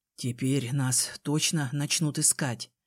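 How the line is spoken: Hoarse. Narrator (Russian): сказал он хрипло

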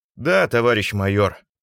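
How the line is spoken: Glum confirmation. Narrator (Russian): уныло подтвердил Славин

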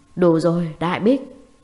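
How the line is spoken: Sudden roar. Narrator (Vietnamese): Lăng Tranh bỗng nhiên gầm lên một tiếng

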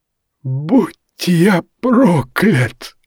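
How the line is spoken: Strained forced words. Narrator (Russian): выдавил Мори, с трудом выбираясь на тротуар

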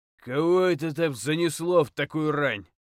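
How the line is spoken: Deep bass voice. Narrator (Russian): пробасил голос

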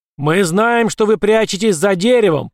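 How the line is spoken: Booming voice. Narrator (Russian): прогремел голос

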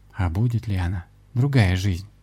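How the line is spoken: Sad. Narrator (Russian): грустно проговорила гостья

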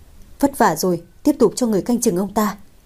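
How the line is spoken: Smiling. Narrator (Vietnamese): mỉm cười nói

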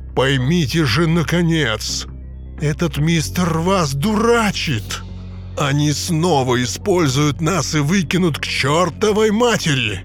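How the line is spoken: Menacing growl. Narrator (Russian): Сэм Своуп угрожающе зарычал

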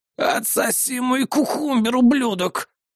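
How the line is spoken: Hissing old man. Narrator (Russian): прошипел один из стариков

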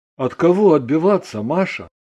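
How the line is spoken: Sad sighing child. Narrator (Russian): Ребенок печально вздохнул

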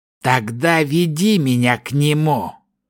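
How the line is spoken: Commanding hiss. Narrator (Russian): приказным тоном прошипел элементалист

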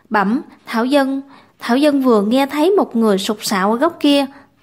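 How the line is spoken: Stammering. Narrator (Vietnamese): Tiểu Đồng lắp bắp

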